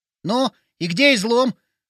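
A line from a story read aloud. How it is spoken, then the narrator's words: Skeptical snort. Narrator (Russian): хмыкнул Вовчик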